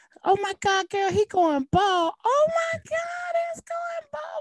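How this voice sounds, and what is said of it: Imitates a girl's voice. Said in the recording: “you got a really good girl impression”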